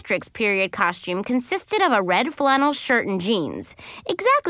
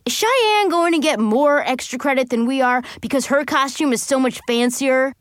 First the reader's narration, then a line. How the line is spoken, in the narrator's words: he yelled